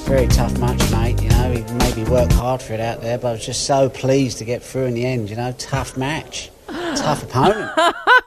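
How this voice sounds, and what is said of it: Londoner doing a poor Australian accent. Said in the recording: “He's from London ... in a rather poor Australian accent ... a crap bad. Aussie accent”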